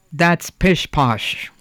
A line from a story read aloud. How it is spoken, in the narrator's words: growled the woodcarver